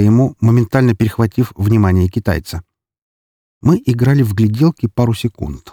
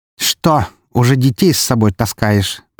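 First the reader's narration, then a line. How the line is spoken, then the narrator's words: Contemptuous snort. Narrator (Russian): презрительно фыркнул он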